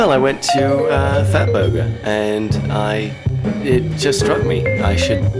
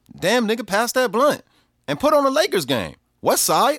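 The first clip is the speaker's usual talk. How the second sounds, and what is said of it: Put-on Los Angeles street accent. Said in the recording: “How did you master that LA accent like that? ... the American accent ... you sound just like my son's barber.”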